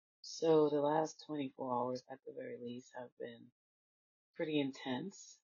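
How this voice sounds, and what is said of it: Congested, allergy-affected voice. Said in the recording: “apologize for my voice. My allergies are kicking in, so I sound a little itchy. ... A little sinusitis and allergy action happening.”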